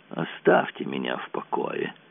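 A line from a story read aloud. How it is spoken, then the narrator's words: Grumbling. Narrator (Russian): Он проворчал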